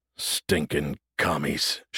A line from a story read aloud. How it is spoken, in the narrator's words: Sherman muttered to himself